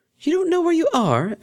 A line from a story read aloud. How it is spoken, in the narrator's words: exclaimed Octavia